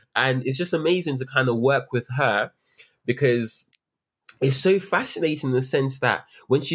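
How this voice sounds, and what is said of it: Usual voice. Nothing is said of it.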